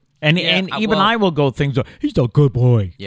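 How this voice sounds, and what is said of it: Silly baby-talk voice to dog. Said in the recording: “Do you ever use like a silly voice when talking?”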